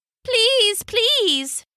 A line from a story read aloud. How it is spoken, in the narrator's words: they cried